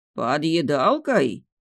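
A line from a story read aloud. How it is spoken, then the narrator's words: Menacing. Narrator (Russian): грозно сдвинул брови Далиль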